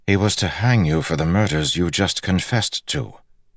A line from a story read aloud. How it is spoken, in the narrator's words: Galad said calmly